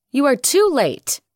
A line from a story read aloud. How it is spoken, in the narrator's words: he cried proudly